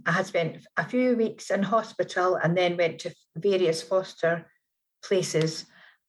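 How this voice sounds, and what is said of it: Scottish accent. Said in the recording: “you are definitely not from the deep south of America. I don't hear New York in there... I am Scottish”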